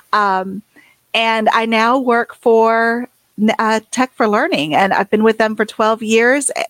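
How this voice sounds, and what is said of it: Southern US accent. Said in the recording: “I was a technology coach in South Carolina. That's where the accent comes from”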